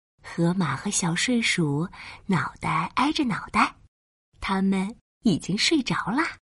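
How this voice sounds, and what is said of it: Soft hushed storytelling voice. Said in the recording (Chinese): “嘘，小声点儿”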